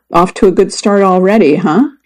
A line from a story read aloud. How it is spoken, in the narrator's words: he said